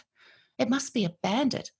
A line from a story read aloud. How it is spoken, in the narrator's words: quavers, full of tears